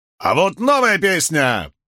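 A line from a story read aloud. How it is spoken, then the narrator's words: Barking shout. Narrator (Russian): рявкнул Ван Ганди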